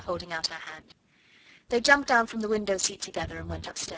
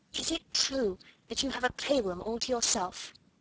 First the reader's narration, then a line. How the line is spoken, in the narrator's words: Ermengarde whispered